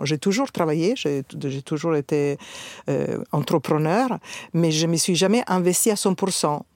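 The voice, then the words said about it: Italian accent speaking French. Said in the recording (French): “le magnifique accent que tu as... que je suis italienne”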